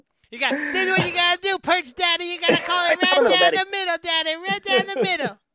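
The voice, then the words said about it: Imitates another person's voice. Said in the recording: “Do you do a Bill Alfonso impersonation? ... I thought that was the impression.”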